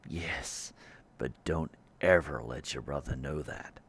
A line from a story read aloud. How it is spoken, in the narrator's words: Judd muttered back